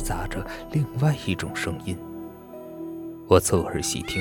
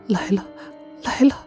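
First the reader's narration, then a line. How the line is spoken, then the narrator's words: Trembling girls' voices. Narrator (Chinese): 两个女孩子的声音在颤抖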